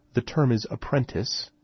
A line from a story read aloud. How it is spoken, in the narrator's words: Esper said calmly